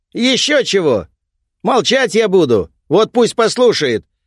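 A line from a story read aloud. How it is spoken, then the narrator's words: Loud. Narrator (Russian): громко говорит Тэнтё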